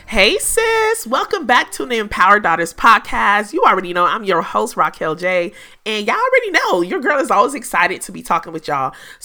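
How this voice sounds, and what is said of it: Slightly raspy voice. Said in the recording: “hear my voice is a little raspy”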